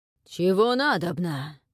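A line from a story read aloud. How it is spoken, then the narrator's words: Wary, hoarse sleepy male shout. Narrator (Russian): настороженно крикнул хриплый со сна мужской голос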